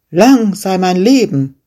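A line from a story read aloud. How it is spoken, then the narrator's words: Shepherd calling out. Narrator (German): rief der Schäfer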